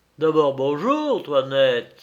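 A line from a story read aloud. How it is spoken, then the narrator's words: Exclaimed. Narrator (French): s'écria-t-il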